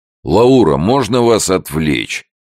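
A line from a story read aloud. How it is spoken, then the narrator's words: Booming from next room. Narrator (Russian): прогудел из соседней комнаты Питер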